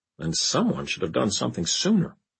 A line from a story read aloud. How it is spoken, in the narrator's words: muttered Larry